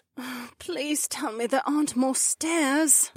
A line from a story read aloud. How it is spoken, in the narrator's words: Becca groaned